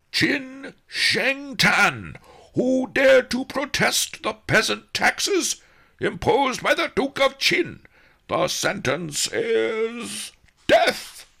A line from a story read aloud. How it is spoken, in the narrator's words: roared the sergeant-at-arms